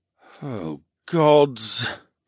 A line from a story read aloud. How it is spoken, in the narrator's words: the merman groaned